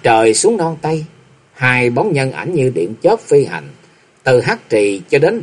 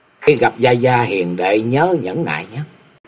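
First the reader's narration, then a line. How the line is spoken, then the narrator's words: Soft whispered instruction. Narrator (Vietnamese): Lạc Dương Dương ghé vào tai của Lý Mộng khẽ dặn dò nói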